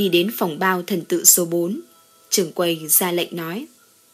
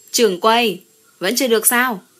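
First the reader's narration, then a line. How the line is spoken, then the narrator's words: Impatient loud shout. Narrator (Vietnamese): Đường Mãn Lâu đợi lâu quá, quát lớn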